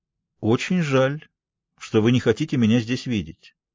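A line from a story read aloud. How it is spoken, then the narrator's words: Calm. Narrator (Russian): спокойно отвечает Скарпетта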